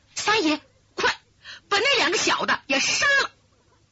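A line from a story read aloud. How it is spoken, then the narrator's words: Hurried. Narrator (Chinese): 急忙说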